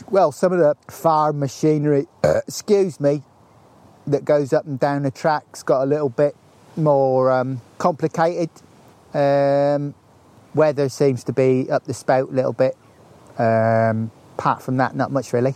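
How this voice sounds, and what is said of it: Rural English accent, nearly Norfolk. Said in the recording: “It's an interesting accent you've got there as well. It's not quite a Norfolk accent, is it?”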